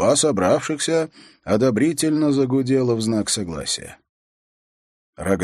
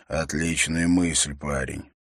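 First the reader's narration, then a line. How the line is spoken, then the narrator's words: Barely audible mutter. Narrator (Russian): Эрок едва слышно пробормотал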